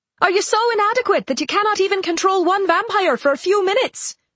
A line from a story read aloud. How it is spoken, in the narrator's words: Morovan yelled at them